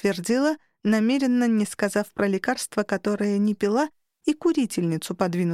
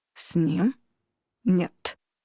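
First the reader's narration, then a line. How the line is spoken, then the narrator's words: Hard, clipped words. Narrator (Russian): жестко отчеканил инкуб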